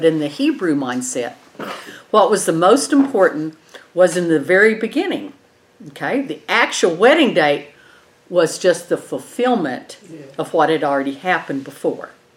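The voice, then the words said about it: Eastern New Mexico, West Texas accent. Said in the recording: “with the Eastern New Mexico, West Texas accent, I know I'm not going to get that right”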